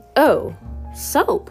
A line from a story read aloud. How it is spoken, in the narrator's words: I exclaimed